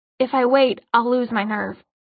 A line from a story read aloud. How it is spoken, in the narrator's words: she said, in that reasonable tone that only very drunk people ever employed